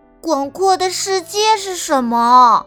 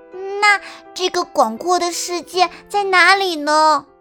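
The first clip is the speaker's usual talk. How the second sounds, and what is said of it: Soft, quiet voice. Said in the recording (Chinese): “小声道”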